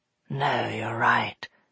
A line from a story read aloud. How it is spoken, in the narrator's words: muttered Dustfinger